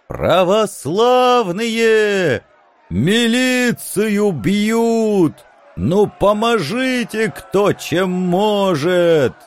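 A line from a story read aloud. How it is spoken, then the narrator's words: Shouted. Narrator (Russian): Кажется, это прокричал Митька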